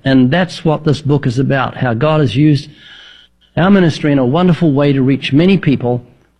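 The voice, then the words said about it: New Zealand accent. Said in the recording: “the accent. I was thinking maybe Northern Alabama, but what? New Zealand.”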